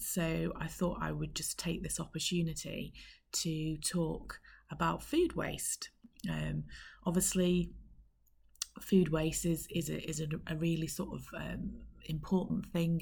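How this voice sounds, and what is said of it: Croaky voice. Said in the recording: “as you might be able to tell from my voice, I'm a little bit croakier than normal ... I've got a little bit of a cold ... So I'm slightly croaky today”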